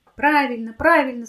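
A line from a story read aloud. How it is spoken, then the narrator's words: Group of kids shouting. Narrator (Russian): закричали ребята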